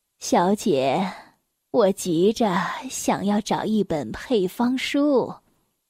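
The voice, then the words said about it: Gentle old woman's voice. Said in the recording (Chinese): “她用温和的声音说”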